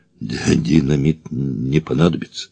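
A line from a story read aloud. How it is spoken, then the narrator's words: Quiet. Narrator (Russian): тихо сказал Эраст Петрович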